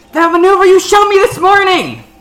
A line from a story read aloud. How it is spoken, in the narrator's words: she'll yell down to